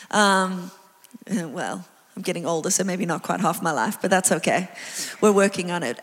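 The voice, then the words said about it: South African accent. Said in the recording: “I have an accent. It's South African.”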